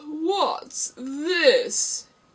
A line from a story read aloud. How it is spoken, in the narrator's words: He said, speaking in a deep, hollow tone that sounded like the tolling of a great bell